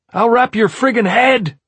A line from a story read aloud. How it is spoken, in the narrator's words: the cop shouted back